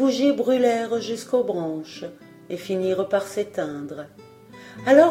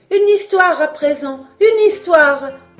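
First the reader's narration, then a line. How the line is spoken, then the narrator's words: Children crying out. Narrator (French): s'écrièrent les enfants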